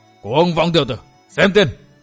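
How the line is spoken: Furious old man's roar. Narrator (Vietnamese): lửa giận đốt cháy tâm can của Sa Thiên Lý, lão gầm lên

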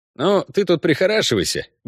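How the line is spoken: Cheerful. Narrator (Russian): бодро сказал ей Ламберт

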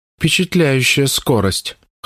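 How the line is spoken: Sleepy snort. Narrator (Russian): хмыкает стужа, сонно подтягиваясь

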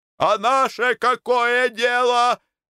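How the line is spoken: Shouting. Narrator (Russian): кричал Антон

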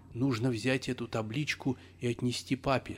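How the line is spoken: Plain. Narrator (Russian): сказал Миша

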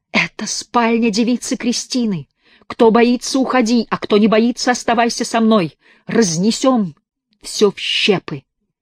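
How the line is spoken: Frenzied shout. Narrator (Russian): вдруг в исступлении крикнул

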